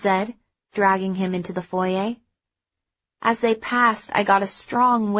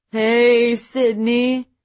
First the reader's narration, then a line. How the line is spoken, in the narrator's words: Spence slurred at me cheerfully